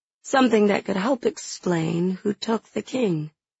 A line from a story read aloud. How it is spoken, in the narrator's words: she says coolly